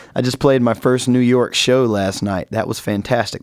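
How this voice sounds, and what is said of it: Slightly scratchy voice. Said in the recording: “my voice is a little bit scratchy right now”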